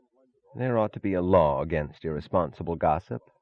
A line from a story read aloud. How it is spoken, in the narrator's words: said Taggart sullenly